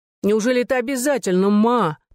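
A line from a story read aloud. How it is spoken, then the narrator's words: Groaning. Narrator (Russian): простонала Эми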